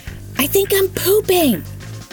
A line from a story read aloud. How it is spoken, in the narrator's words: I screamed out nervously